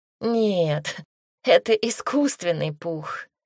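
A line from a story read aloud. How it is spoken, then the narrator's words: Giggling. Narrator (Russian): хихикнула Агата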